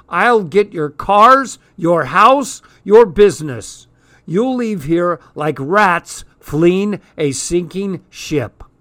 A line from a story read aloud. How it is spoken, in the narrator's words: shouting